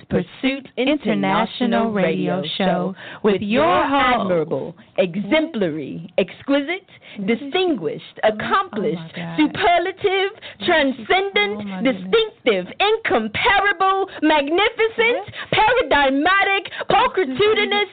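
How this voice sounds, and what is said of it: Put-on accent, grandiose announcer. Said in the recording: “with that accent and those words”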